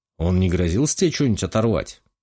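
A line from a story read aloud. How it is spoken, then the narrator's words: Snorting smirk. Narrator (Russian): хмыкнул Василий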